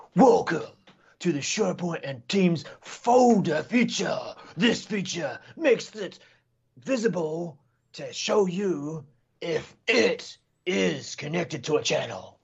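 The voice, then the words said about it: Over-dramatic wrestling announcer voice. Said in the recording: “over dramatic ... my WWF announcer voice”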